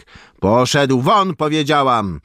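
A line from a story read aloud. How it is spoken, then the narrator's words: Irritated scream. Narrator (Polish): wrzasnęła poirytowana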